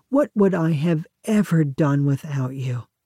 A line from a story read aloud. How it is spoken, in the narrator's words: a bride might sigh